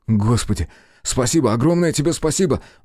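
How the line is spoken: Exclaiming. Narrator (Russian): воскликнул Белый

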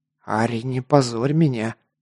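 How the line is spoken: Hissed reproach. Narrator (Russian): зашипел на демоницу Гар

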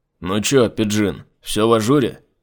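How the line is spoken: Overly loud question. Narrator (Russian): слишком громко спросил он

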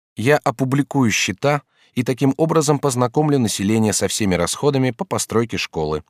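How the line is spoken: Plain. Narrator (Russian): ответил мэр

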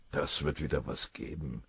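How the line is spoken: Murmuring confidentially. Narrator (German): raunte Maschinger dem Oberfeldwebel zu

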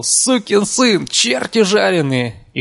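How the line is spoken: Sharp shrill shouting. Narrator (Russian): Резким, визгливым голосом он то и дело выкрикивал

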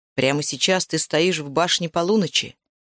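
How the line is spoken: Sharp. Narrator (Russian): резко сказал

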